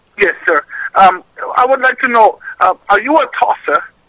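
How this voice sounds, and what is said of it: Convincing put-on accent. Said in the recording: “Accent. I can't believe he pulled it off.”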